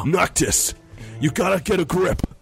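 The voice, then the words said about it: Video game character voice. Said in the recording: “I'm going to do my Final Fantasy voice.”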